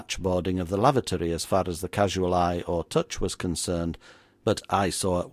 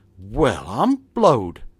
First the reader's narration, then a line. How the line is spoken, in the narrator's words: exclaimed he